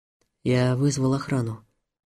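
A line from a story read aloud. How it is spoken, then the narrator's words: Quiet. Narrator (Russian): негромко сказал Хайретдинов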